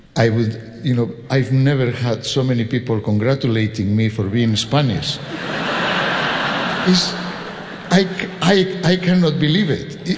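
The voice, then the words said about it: Spanish accent. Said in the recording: “I am from Spain ... with my accent, say, oh, are you French? And I say, no, I am Spanish.”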